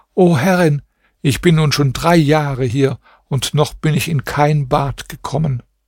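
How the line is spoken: Tearful voice. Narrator (German): sagte die Prinzessin mit weinender Stimme

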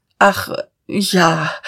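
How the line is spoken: Stammered. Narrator (German): stammelte Diederich

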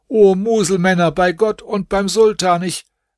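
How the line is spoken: Confused shouting. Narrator (German): durcheinander schrien

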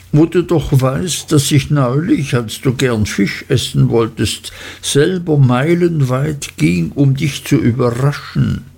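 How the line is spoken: Sobbing. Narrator (German): schluchzte Dora

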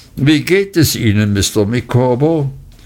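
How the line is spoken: Said loudly. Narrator (German): sagte ich laut

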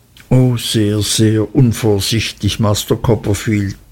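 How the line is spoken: Humble sighing confirmation. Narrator (German): bestätigte Uriah mit einem bescheidenen Seufzer

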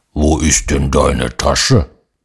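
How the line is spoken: Bear's growl. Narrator (German): ein Braunbär, der brummt

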